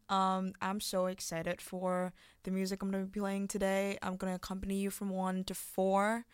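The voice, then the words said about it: Hoarse, partly lost voice. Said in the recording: “my voice is a bit gone”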